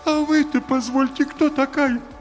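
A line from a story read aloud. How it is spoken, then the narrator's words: Gloomy declaration. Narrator (Russian): мрачно заявила вошедшая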